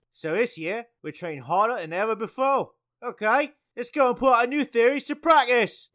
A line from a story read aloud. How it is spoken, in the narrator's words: Wood shouted